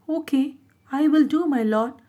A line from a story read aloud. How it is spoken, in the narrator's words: the red monkey would say in a sad, submissive tone